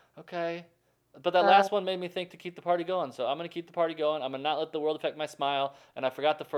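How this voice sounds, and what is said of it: Usual voice. Nothing is said of it.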